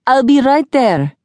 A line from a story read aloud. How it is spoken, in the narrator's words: Jack shouted